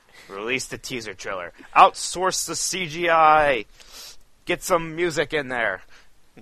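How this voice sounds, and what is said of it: Impression of a video game CEO. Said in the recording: “my impression of a CEO of a major video game company”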